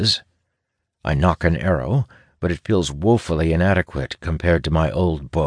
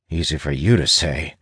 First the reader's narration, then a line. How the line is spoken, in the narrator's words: I mutter